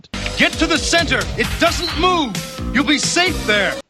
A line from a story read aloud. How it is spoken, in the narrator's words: Matt ends up yelling out